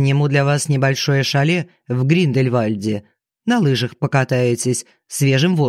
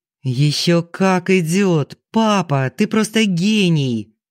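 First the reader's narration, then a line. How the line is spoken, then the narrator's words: Joyful. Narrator (Russian): радостно отозвался Марк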